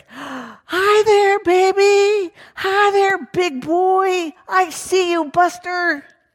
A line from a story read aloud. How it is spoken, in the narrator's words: he called out to Eric